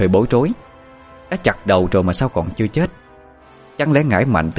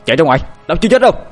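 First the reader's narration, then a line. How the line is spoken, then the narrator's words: Breathless loud shout. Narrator (Vietnamese): Anh Hùng tôi vẫn còn thở hồng hộc nhưng vẫn hét lớn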